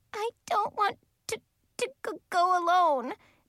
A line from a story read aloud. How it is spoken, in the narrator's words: Mary Kay sobbed